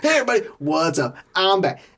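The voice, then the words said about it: Upbeat YouTuber-style intro voice. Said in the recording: “now that sounds like he's a YouTuber.”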